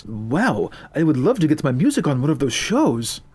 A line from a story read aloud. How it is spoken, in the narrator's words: Mohammed exclaimed